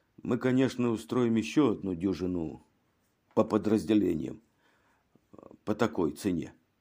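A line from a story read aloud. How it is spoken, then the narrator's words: Quiet. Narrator (Russian): Инспектор тихо продолжал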